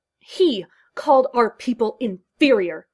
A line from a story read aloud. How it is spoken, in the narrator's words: spat out the Bajoran